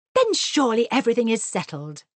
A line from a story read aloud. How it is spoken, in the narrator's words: cried Mr